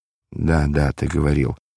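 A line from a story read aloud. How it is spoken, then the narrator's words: Embarrassed mutter. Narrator (Russian): пробормотал смущенный Варава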